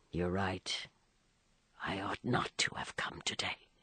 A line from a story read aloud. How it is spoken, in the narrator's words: he said, lowering his voice so that the coachman should not hear